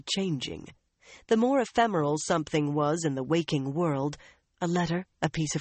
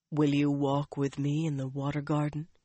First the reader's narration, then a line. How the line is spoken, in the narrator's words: he said softly